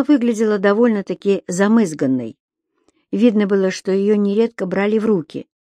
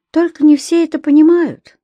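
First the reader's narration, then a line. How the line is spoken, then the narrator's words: Sighing. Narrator (Russian): вздохнул Федька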